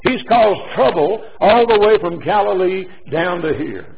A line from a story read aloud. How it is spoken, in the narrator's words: somebody shouted from the mob